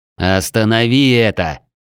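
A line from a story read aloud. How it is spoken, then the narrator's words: Near growl. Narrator (Russian): едва ли не прорычал я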